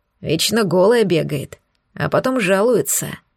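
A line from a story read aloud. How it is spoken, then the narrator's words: Grumbling werewolf. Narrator (Russian): ворчал оборотень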